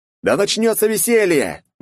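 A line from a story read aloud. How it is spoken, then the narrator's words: Full-throated shout. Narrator (Russian): во всю глотку крикнул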